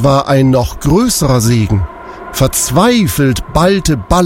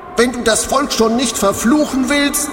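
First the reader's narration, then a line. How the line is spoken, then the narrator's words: Calling out. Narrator (German): rief er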